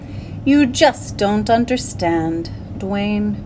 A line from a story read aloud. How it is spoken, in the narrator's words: said gloomily